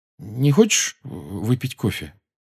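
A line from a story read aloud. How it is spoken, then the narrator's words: Uncertain question. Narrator (Russian): Джоу неуверенно спросила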